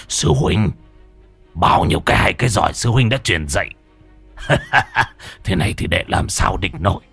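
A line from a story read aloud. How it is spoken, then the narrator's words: Loud laughter. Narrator (Vietnamese): A Bân cười lớn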